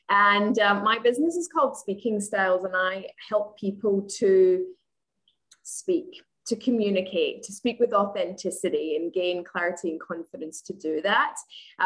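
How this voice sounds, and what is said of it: Scottish accent with Australian traces. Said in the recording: “she has an accent ... I'm originally from Scotland, but I live in Australia ... a little bit of accents going on there”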